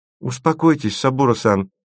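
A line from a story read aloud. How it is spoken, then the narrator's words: Sad. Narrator (Russian): печально промолвила Маша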